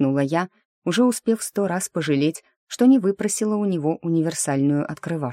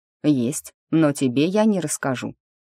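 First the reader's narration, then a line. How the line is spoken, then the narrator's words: Snorting, relaxing. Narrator (Russian): хмыкнул лорд, потихоньку расслабляясь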